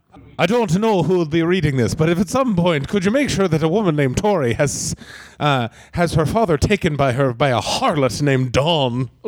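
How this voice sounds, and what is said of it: Dracula accent drifting into Irish. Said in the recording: “that was started out as Dracula and ended kind of Irish.”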